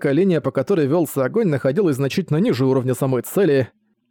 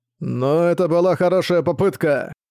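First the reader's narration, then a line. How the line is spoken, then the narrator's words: Desperate muffled shout. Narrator (Russian): Крокто отчаянно закричал откуда-то из-под бегемота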